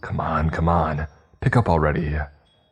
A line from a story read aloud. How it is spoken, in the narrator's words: harshly muttered